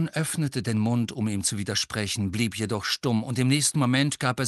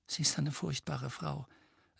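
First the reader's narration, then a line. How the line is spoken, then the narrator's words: Quiet voice. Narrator (German): sagte Hermine mit leiser Stimme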